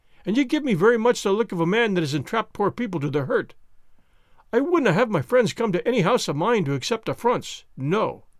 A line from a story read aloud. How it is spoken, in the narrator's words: he cried, with a sudden heat of anger